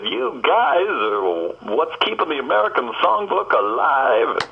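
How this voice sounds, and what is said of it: Good impression of a singer. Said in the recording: “that's a good impression”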